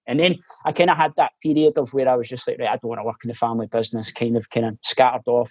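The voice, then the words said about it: Mixed Glasgow central belt accent. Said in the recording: “my accent's so weird because it's like a, ... it's a mixture of kind of central belt, Glasgow, and um, living abroad as well”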